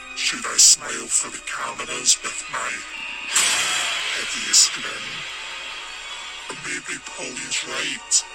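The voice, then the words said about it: Very low distorted voice, thick Scottish accent. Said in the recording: “his voice has been disguised. ... Distorted. ... So it's very low in its tone, but also add a really thick Scottish accent”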